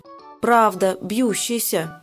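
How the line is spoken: Muttering. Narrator (Russian): бормочет она

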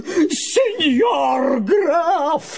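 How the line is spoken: Wild distorted shriek. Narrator (Russian): завопил Помидор не своим голосом

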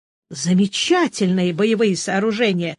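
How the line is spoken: Exclaimed. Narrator (Russian): воскликнул Боден

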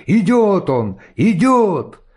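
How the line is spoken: Sudden exclamation. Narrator (Russian): Вдруг кто-то воскликнул

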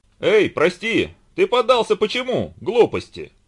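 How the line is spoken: Shouting. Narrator (Russian): Закричал Иван

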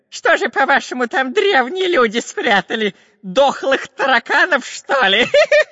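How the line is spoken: Robber laughing. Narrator (Russian): Засмеялся разбойник

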